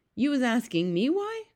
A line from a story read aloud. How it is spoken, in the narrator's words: cried the BFG